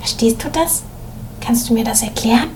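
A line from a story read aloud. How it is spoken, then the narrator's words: Whisper. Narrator (German): seine Klassenkameradin Ina, die links neben ihm saß, zu ihm hinüberbeugte und flüsterte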